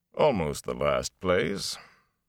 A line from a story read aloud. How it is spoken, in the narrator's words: He paused, dryly added